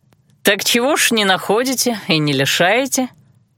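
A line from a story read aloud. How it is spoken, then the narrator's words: Sarcastic young man asking. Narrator (Russian): язвительно поинтересовался парень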